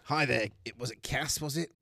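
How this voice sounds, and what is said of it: Put-on Australian accent. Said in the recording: “this accent that the DM has suddenly adapted, which is Australian”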